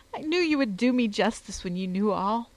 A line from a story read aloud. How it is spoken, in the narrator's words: she sobbed